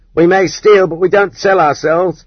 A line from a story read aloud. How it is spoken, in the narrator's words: the women thieves yelled at the prostitutes